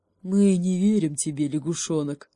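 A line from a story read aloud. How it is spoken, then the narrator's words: Distrustful bear grumble. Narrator (Russian): недоверчиво проворчал медведь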